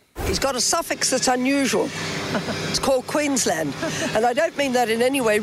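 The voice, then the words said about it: Posh English accent. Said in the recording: “Why does she have an English accent when she's lived in Sydney? ... it sounds like she's a member of the royal family”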